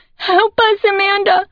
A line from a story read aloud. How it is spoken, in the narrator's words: Joanna cries from the back corner